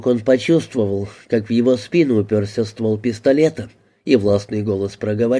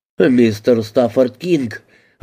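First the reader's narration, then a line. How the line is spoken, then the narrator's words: Astonished exclamation. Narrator (Russian): воскликнул он вне себя от изумления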